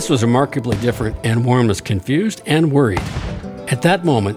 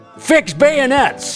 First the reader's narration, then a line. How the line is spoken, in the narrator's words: Suddenly he yelled